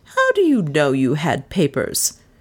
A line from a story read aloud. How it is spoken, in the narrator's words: She asked sharply